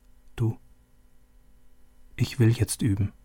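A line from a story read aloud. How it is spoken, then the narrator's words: Quiet. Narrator (German): Leise sagte sie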